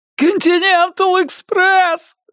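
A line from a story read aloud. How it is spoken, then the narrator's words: Yelling. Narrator (Russian): завопил он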